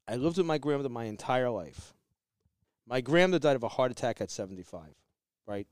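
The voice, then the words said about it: Speaks with a noticeable accent. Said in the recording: “because I have my accent and I speak the way I do”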